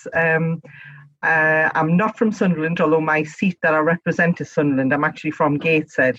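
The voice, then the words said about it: Northeast English local accent. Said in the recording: “up here in the Northeast. And this is a local accent. So you are hearing me right. This is how we talk up here.”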